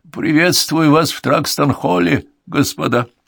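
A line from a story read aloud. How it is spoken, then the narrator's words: Old man's announcement. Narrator (Russian): он объявил старческим голосом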